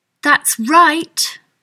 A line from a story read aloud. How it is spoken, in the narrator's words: shouted the Queen